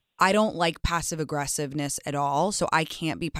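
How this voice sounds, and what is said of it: Usual voice. Nothing is said of it.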